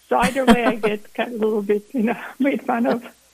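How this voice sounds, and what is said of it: Croatian accent in English. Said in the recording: “You're from Croatia... I still have the accent, which is, you know, one of those things I'll never get rid of”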